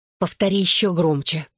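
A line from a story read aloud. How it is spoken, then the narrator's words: Hissing. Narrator (Russian): прошипела Клэр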